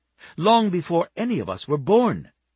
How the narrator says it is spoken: she snapped

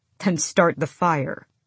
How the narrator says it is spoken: he said

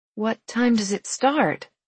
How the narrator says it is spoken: asked feebly

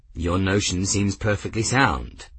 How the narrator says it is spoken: Grimm said smoothly

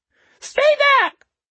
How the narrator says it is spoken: the homeless man squealed at Hayward

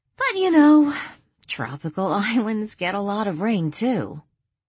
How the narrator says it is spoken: Danielle let out a sigh and then added

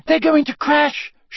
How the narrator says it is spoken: shrieked Hermione

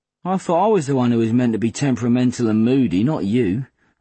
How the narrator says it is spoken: I said dryly

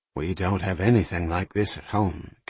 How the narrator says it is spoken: Kathy said quietly

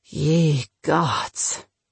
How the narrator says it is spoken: Spunky muttered after he had recovered from the shock

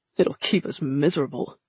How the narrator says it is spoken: Nedja grumbled

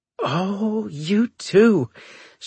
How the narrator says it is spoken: she squealed

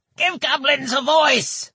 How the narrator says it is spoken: one lanky goblin woman ... to scream

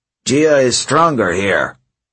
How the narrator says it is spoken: Hedge grumbled

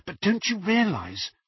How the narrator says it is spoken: whispered Hermione

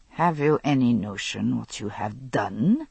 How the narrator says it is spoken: he snarled

